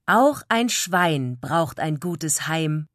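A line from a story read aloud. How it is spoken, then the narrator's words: Contented pig grunt. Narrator (German): grunzte Frieda zufrieden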